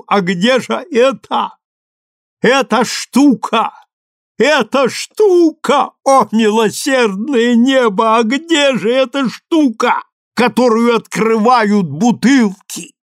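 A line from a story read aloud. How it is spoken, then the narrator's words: Shouted. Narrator (Russian): крикнул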